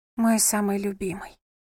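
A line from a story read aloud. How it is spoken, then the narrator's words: Woman's tender whisper. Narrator (Russian): прошептала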